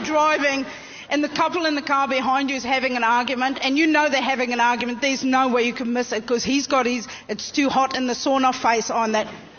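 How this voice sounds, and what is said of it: South African accent, slightly Australian. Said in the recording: “I don't know if you recognize the accent there. There was a little bit of ... Australian ... She's from Benoni.”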